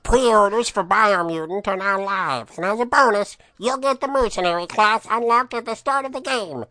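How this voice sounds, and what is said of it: Pinched throaty voice, southern drawl. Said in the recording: “back of your throat ... that's like a southern accent in there ... I pinch my throat that much ... lends itself to longer syllables”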